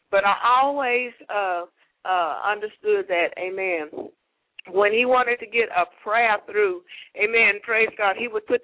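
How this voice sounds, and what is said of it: Southern American accent. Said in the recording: “I guess that's my southern accent.”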